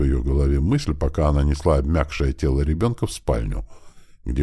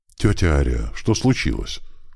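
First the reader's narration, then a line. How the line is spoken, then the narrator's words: Slightly frightened. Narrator (Russian): Слегка напуганным голосом спросил Крис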